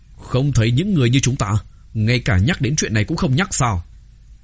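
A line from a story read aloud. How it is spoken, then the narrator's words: Stern, furious. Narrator (Vietnamese): Lang Vân hận không thể lập tức tiễn hắn thành đạo, nghiêm giọng nói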